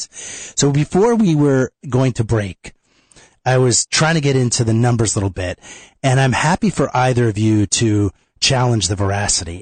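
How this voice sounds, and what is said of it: Congested voice from a cold. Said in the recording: “my voice sounds different tonight. Yes, I'm getting over a little bit of a cold. It's not my sexy voice. ... I'm a little congested here.”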